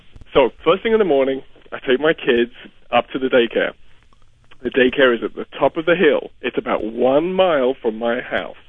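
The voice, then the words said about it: English accent that sounds Dutch. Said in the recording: “You don't have any English accent, but you have a Dutch accent ... your accent is sounding more British as we go along.”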